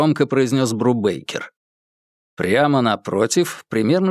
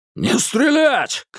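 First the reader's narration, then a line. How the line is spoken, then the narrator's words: Shouted. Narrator (Russian): крикнул Хэнсон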